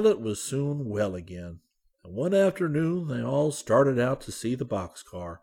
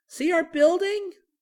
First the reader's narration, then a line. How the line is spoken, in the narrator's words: shouted Benny